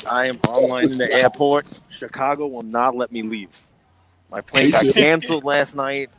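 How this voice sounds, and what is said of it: Hoarse, strained voice. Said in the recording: “You have lost your voice.”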